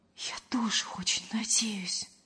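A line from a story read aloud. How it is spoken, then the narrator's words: Whispered reply. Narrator (Russian): почему-то шепотом откликнулась Лена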